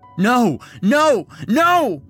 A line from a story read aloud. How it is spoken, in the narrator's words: shout